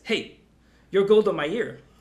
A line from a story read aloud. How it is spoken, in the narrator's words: he yells at Brian